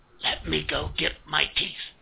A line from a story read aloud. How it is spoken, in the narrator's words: I whispered back